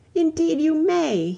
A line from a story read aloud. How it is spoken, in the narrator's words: he cried